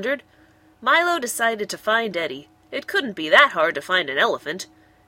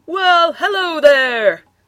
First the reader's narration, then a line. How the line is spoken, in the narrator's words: bellowed Eddie at the bewildered monkey